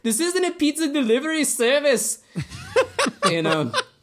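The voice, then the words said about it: Put-on South African accent. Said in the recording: “Is that your South African accent? ... I think that's the Chappie voice.”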